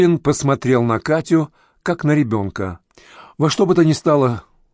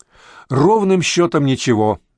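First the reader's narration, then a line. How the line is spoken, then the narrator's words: Laughing. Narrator (Russian): рассмеялся Даниил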